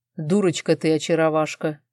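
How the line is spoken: Snorting. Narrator (Russian): фыркнула Арман

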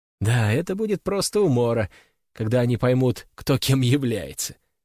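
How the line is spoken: Giggling. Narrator (Russian): хихикает Алина

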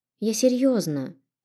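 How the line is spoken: Sulky mumble. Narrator (Russian): чуть насупленно пробормотала

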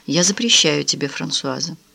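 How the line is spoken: In an undertone. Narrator (Russian): Кароль вполголоса сказала

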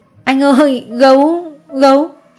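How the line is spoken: Child whimpering. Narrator (Vietnamese): Nó mếu máo

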